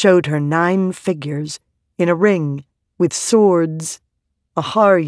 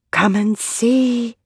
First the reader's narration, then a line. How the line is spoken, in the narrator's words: the stones whispered to her, their voices fading